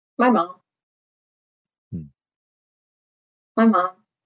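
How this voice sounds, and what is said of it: Emotional, choked-up voice. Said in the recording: “Sorry, a little emotional.”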